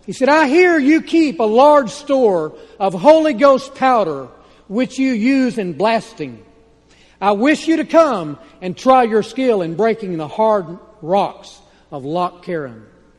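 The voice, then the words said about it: Texas accent. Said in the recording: “I can't, so I'll keep a Texas accent.”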